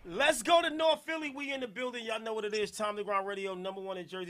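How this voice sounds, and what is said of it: New Jersey accent. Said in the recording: “I'm from Newark, Jersey. I love my Jersey accent.”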